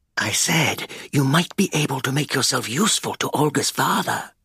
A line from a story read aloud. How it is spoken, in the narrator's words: Sigurdsson murmured